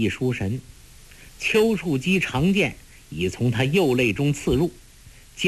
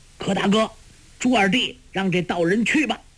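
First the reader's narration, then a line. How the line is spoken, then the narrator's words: Shouting. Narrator (Chinese): 焦木大叫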